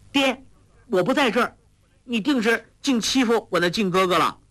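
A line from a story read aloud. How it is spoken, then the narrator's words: Excited shout. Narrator (Chinese): 华筝跳起身来叫道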